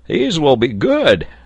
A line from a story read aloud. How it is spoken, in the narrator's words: cried Neb